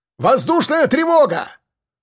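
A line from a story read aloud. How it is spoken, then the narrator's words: Shouting. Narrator (Russian): заорал командир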